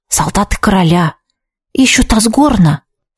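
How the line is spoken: Whisper close to the ear. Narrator (Russian): шепнул Витсар, склоняясь к моему уху

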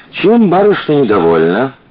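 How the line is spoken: Forced cheer, flirtatious tone. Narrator (Russian): Коля пытался говорить весело, но получилось пошло, как будто он заигрывал с девушкой

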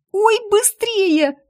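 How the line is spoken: Little sister's squeal. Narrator (Russian): взвизгнула сестричка

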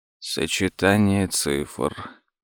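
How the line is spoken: Repeating mumble. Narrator (Russian): пробормотал за сыном Том

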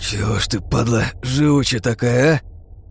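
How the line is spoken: Hoarse rasp, spitting blood. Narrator (Russian): прохрипел, сплевывая на пол вязкую слюну пополам с кровью

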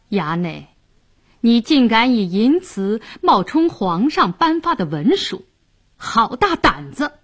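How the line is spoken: Sneering. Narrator (Chinese): 白世忠冷笑道

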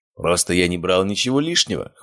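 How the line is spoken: Snorting. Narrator (Russian): хмыкнул он

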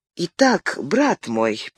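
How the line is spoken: Sad smiling tone. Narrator (Russian): печально улыбнулся Франциск II

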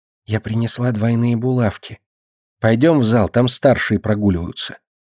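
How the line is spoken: Whisper. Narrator (Russian): Муха шепнула

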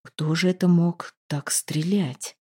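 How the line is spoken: Whisper, big man. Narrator (Russian): шепнул Одрик, здоровенный парень

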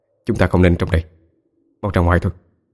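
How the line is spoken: Whispering. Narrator (Vietnamese): Trọng thì thầm nói

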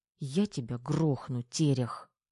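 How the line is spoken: Angry jealous whisper. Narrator (Russian): зло прошептала, с ревностью

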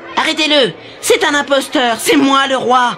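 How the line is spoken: Shouted. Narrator (French): hurla Édouard

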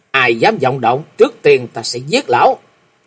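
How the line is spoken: Loud shout. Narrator (Vietnamese): Chàng lớn tiếng quát lên nói

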